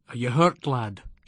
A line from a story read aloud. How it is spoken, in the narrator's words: asked